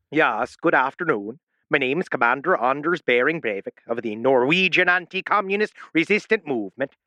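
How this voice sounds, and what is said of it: Bad put-on Norwegian accent, Irish-sounding. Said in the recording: “You're going Irish. ... You have the worst Norwegian accent in the world.”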